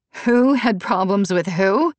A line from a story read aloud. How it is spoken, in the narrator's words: Natalie laughed